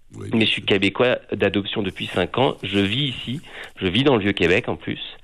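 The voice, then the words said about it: Non-Québécois French accent. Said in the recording (French): “à mon accent, vous devez comprendre que je suis pas québécois de base”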